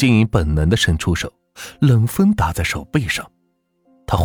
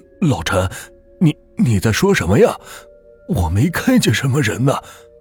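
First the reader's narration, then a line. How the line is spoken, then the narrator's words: Frightened. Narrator (Chinese): 黄金银 心里是一阵阵发毛，声音里透着恐惧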